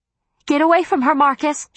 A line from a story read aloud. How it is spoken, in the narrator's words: shouted Em